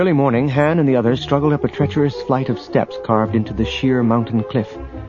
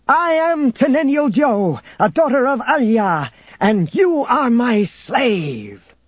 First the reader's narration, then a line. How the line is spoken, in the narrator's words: She shouted triumphantly